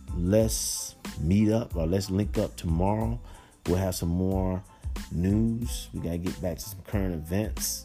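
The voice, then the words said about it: Tired-sounding voice. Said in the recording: “You probably hear it in my voice that I'm a little bit tired.”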